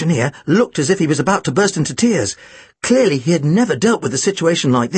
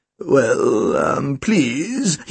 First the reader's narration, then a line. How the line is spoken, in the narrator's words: stammered